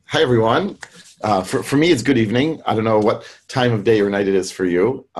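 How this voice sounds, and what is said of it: American English accent. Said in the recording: “as you can hear from my accent, I grew up in the US”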